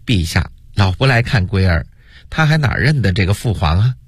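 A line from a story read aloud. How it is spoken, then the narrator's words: Reproachful, pouting. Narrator (Chinese): 又嗔怪地说道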